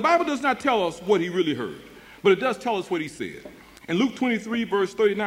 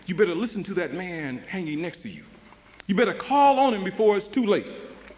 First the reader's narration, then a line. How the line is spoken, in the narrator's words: The Holy Spirit must have whispered in his ear